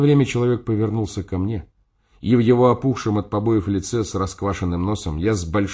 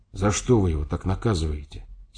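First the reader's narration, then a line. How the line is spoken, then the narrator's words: Quiet question. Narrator (Russian): спросил я тихо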